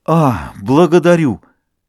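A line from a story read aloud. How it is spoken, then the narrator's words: Joyful mumble. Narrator (Russian): Его сердце радостно забилось, он пробормотал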